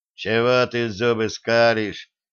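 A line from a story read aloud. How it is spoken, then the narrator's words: Grumbled with displeasure. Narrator (Russian): недовольно проворчал Кузьмич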